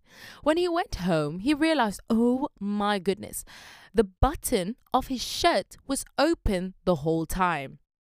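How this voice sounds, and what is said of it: Put-on British accent. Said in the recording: “I just switched to a British accent. ... British.”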